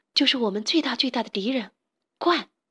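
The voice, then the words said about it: Quiet, hushed voice. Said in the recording (Chinese): “小声地说”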